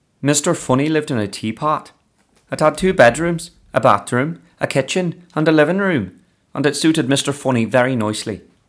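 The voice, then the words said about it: Put-on Irish accent. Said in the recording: “Irish accent”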